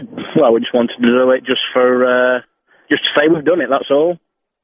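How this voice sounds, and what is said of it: English accent. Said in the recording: “you've got an obvious English accent”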